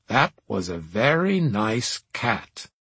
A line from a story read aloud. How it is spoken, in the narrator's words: Professor Seidensticker drawled